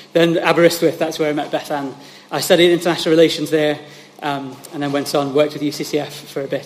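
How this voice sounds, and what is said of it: South East English accent. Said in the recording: “my accent is mostly kind of Kent and South East, I think.”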